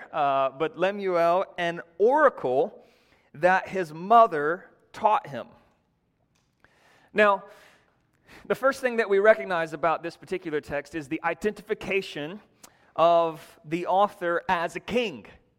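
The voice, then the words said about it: North Georgia accent. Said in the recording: “my North Georgia accent”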